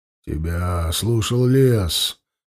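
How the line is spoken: Muffled, hollow voice. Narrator (Russian): глухо проговорил он

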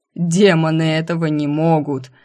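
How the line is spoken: Loud mocking laughing proclamation. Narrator (Russian): сквозь смех глумливо и громко возвестил рогатый

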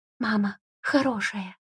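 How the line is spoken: Tearful whisper. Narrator (Russian): шепнул он, стирая слезы

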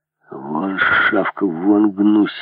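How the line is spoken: Growling in French. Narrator (Russian): рычал повар по-французски

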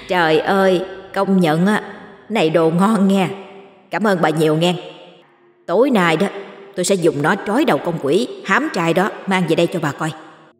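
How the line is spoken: Effusive, gushing thanks. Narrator (Vietnamese): Như cảm ơn rối rít

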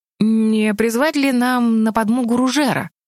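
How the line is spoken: Hesitant suggestion. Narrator (Russian): неуверенно предложил министр продовольствия

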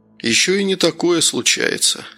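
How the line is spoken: Calm. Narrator (Russian): спокойно проговорил Новиков

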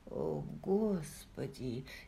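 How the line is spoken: Quiet speech. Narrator (Russian): тихо произнес Джейми

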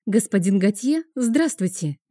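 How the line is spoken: Cheerful greeting. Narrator (Russian): весело произнесла она

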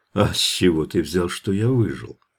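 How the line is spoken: Gentle, tender question. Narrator (Russian): спросил он как-то ласково

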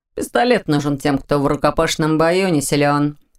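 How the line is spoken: Snorted reply. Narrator (Russian): фыркнул Ваня в ответ

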